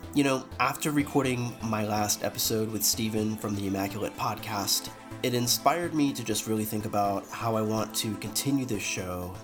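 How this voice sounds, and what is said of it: Sick-sounding voice. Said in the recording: “I am feeling a little sick, so please excuse my voice.”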